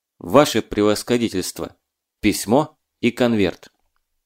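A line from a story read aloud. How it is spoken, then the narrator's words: Calm, weighty speech. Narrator (Russian): Марченко, спокойно наблюдающий, весомо сказал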